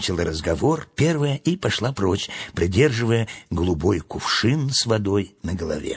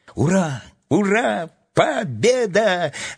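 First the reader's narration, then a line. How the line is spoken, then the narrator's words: Joyful yelling. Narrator (Russian): радостно заорал Тим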